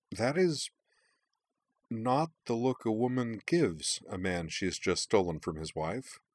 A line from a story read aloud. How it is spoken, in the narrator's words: Emily said hesitantly